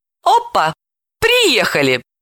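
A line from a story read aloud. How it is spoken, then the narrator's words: False nervous laugh. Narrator (Russian): Далила рассмеялась фальшиво и нервно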